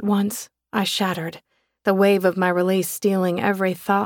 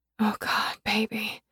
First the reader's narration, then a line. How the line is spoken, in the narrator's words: whispered as my climax peaked